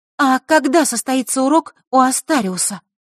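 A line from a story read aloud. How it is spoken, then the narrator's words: Loud question. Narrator (Russian): громко спросила Василиса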